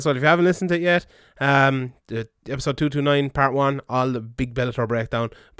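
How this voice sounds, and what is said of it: Hoarse, strained voice. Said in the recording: “lose my voice”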